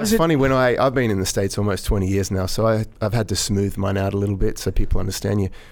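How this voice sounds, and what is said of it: Australian accent. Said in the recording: “You had to start out with the accent. ... the Australian accent is just, it's just calming”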